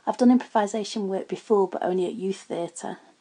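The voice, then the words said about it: Northern English accent. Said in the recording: “I've got a northern accent and I can't do any other”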